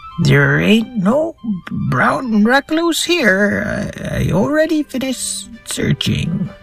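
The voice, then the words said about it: Slightly higher-pitched character voice. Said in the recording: “my voice is a little higher”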